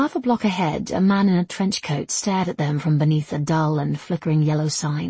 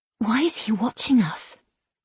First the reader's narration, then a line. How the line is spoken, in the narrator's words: N whispered